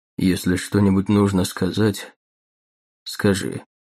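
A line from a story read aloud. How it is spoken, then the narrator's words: Flat colorless voice. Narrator (Russian): произнес Риордан ровным, бесцветным голосом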